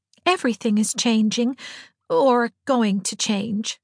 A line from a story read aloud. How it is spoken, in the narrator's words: said Diana sadly